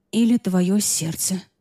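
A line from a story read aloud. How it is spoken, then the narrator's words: Thoughtless muttering. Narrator (Russian): пробормотала я, не подумав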